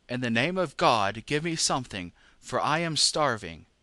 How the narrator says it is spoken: the beggar cried

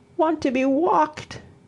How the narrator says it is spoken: he sobbed

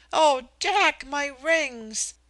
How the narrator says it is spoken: fairly shrieked

